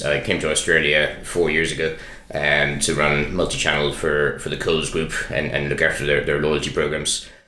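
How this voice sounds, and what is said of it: Irish accent. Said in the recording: “Irish, as you can probably tell by the accents”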